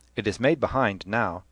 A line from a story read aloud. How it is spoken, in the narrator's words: said Stephen hotly